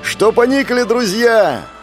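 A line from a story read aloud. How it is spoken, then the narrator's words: Shout. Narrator (Russian): закричал Кеша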